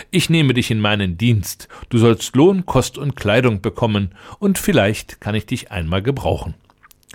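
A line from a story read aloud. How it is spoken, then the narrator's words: Laughing. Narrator (German): lachte der Prinz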